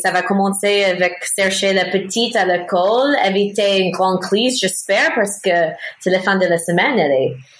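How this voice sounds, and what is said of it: American accent speaking French. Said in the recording (French): “mon joli accent américain”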